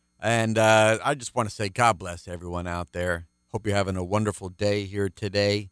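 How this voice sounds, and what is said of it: Deeper baritone early-morning voice. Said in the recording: “my voice is a little deeper here in this first program I record because it's early Saturday morning ... I've got my baritone radio voice”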